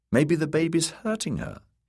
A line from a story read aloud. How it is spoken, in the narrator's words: he said feebly